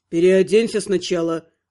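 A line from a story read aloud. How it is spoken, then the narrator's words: Snort. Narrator (Russian): хмыкнул Гробовский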